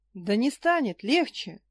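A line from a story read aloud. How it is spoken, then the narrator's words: Sudden roar. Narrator (Russian): неожиданно взревел Баал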